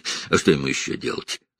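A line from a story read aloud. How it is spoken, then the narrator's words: Dismissive snort. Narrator (Russian): хмыкнул Джейкоб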